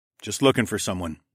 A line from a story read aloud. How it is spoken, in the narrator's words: I said in a casual tone